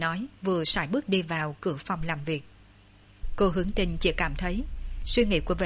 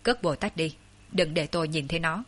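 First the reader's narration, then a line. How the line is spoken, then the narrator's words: Cold. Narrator (Vietnamese): Vệ Đình Quân lạnh lùng nói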